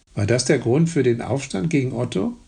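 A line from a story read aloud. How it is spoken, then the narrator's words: Plain. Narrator (German): fragte Volkmar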